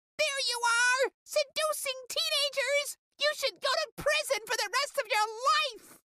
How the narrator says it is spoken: screamed

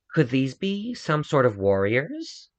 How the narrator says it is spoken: Vare scoffed

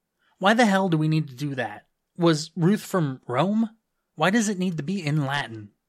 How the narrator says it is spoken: I said harshly

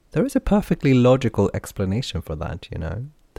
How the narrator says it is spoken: Derry said with a giggle

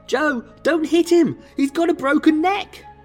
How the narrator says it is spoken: Lena screamed

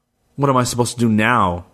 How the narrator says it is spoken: he growled

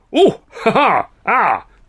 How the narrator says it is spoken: spluttered, struggling to his feet

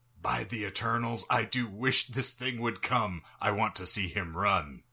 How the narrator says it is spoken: Tiring of this bravado, Jackson whispered

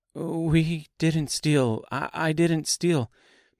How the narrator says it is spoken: Dorothy stammered

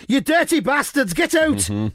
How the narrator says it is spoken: I'd have been shouting at them

